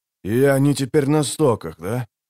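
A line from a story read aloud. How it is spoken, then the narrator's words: Grumbling. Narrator (Russian): проворчал Геральт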